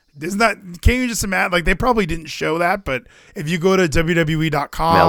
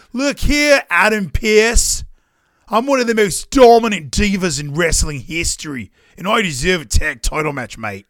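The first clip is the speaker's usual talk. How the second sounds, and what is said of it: Put-on Australian accent, exaggerated. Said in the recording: “that is the worst Australian accent I have ever heard ... She's from Adelaide ... They speak differently than they do in Sydney ... I thought that was a fine Rhea Ripley impression”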